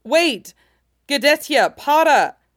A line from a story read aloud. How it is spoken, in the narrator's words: The intruder yelped